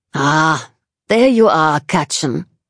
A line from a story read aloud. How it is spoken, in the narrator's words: she says in her commanding German accent